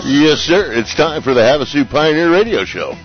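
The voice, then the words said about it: Announcer-style radio voice. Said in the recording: “Was that your radio voice?”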